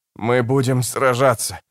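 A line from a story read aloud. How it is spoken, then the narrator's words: Breathless wheeze. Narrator (Russian): задыхаясь, прохрипел Расси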